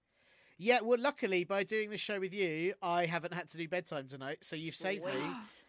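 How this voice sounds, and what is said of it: English accent, sounds West Country. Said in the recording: “I don't know where your accent. I honestly thought you were like from Devon or Bristol or Bath. ... I used to have a really North London accent. It definitely got kicked out of me”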